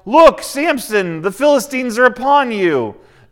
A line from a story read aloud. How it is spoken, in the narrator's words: she yells